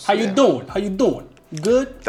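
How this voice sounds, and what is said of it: Italian New York accent impression. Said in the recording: “That's the Italians that took over in the 70s and 80s. That's the Sylvester Stallone. Joey Treviani from Friends. ... Accent.”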